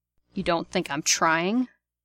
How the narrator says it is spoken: Sirius says, in a dangerous tone of voice

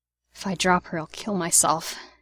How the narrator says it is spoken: he muttered

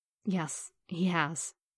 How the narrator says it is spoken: Natasha said softly

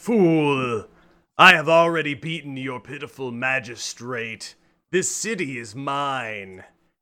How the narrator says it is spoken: the dragon roars and laughs and says

